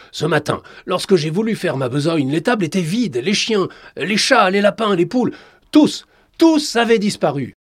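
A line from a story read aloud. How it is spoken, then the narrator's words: Shouting. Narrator (French): hurla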